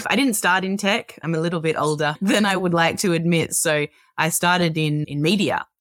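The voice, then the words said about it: Australian accent. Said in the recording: “if you can't tell from the accent, I'm an Australian.”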